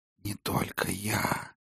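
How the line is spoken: Ghostly whisper. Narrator (Russian): шепнуло привидение

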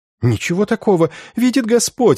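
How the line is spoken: Sobbing. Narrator (Russian): рыдала несчастная

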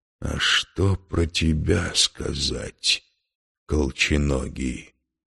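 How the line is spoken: Slow. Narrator (Russian): медленно произнес он

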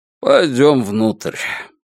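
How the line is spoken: Snort, then plain. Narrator (Russian): Утес лишь хмыкнул и сказал

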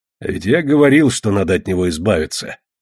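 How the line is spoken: Grumbling raven. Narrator (Russian): проворчал ворон

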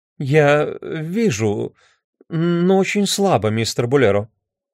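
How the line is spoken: Stammering. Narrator (Russian): Мисс Фьюгейт, запинаясь, сказала

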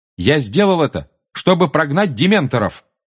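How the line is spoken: Loud. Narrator (Russian): громко сказал Гарри

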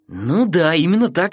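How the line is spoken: Joyful. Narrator (Russian): радостно ответил он

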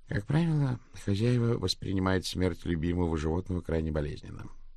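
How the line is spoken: Gloomy remark. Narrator (Russian): мрачно заметил Слоут

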